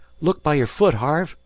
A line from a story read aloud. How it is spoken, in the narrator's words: cried Dan below